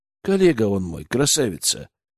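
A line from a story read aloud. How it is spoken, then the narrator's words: Soft, affectionate, smiling voice. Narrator (Russian): улыбнулся я ласково, смягчив голос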